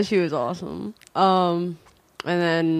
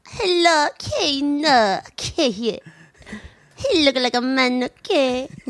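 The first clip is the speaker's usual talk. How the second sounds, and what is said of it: Impression of Miss Swan from MADtv. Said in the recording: “my impression signature that would be, like, the Miss Swan character from Mad TV”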